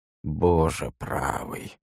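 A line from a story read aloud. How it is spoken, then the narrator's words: Weary exhale. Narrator (Russian): устало выдохнул Ваймак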